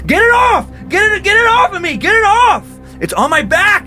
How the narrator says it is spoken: yelled Carlos

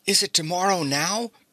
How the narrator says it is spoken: asked Bobby eagerly as he awoke the next morning

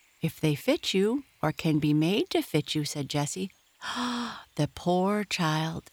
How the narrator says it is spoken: exclaimed Amy softly, taking care that Henrietta should not hear her

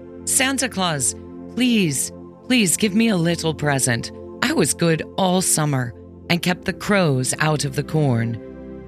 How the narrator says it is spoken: pleaded the poor scarecrow in his choking voice

